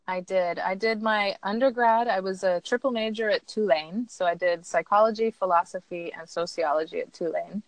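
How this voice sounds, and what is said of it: American accent. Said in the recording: “which is why I have an American accent.”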